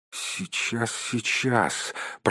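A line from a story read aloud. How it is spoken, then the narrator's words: Muttered. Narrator (Russian): пробормотал Бильбо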